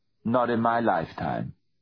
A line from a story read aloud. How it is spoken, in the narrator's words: she said, in the same impassive voice